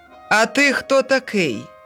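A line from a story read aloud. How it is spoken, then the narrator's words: Shouted. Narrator (Ukrainian): крикнув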